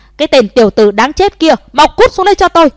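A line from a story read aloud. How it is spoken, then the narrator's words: Furious yelling. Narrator (Vietnamese): Lưu Nghĩa và sư phụ của Trần Chí Khuê dựng cả gân xanh lên gào thét nói lớn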